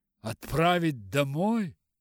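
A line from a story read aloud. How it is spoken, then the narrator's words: Exclaimed. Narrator (Russian): воскликнул Бингли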